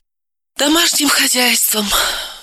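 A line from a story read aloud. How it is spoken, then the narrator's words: Sighing. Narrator (Russian): вздохнула Левицкая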